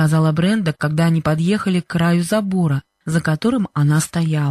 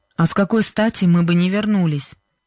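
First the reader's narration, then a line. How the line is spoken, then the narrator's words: Displeased question. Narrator (Russian): недовольным голосом спросил Джо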